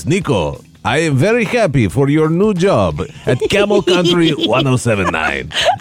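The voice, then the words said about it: Imitated Greek accent. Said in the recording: “when I'm doing my dad's accent, it's because that's the way he sounds ... your parents are from Greece ... He speaks like this.”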